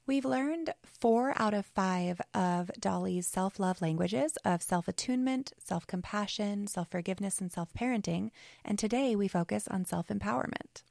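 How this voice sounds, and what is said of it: Slightly raspy voice. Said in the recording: “excuse my voice. I'm on the tail end of a sickness, and it's a little raspy.”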